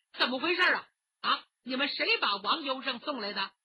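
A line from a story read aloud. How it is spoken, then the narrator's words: Hurried question. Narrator (Chinese): 这几个人急忙问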